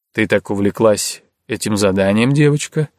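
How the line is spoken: Quiet question. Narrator (Russian): негромко поинтересовался Расмус

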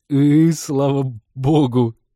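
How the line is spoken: Forced out through laughter. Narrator (Russian): кое-как выдавил пилот и снова забился в смеховых конвульсиях

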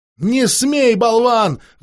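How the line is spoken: Shrill shriek. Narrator (Russian): взвизгнула она

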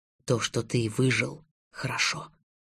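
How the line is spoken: Whisper. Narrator (Russian): шепнула тьма

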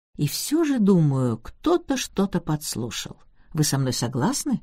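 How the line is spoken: Plain. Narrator (Russian): сказала мисс Марпл

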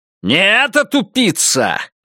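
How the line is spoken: Barked. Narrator (Russian): рявкнул он

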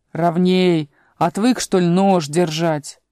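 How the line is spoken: Grumbling carpenter. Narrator (Russian): плотник проворчал

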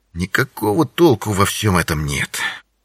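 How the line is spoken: Muttering to himself. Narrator (Russian): бормотал Винсент себе под нос

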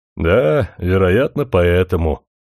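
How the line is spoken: Sad smile. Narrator (Russian): печально улыбнулся Смерчев

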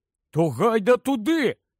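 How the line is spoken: Exclaimed. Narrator (Ukrainian): вигукнув Рон

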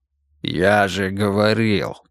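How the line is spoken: Amused smiling snort. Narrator (Russian): белозубо хмыкнул Мансур

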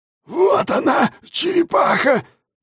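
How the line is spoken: Hoarse old man's rasp. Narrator (Russian): прохрипел старый птицелов

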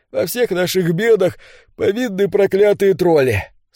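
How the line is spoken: Sleepy. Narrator (Russian): сонно заявил солдат

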